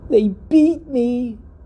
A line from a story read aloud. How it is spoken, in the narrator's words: it screamed